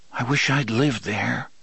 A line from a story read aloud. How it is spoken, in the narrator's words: Jake said wistfully